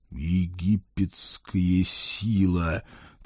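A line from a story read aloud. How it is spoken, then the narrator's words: Wistful exhale. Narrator (Russian): тоскливо выдохнул я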